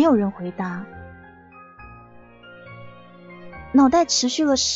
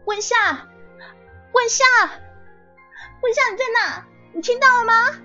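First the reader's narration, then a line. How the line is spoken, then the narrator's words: Lost, shouting. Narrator (Chinese): 茫然无措的，他大喊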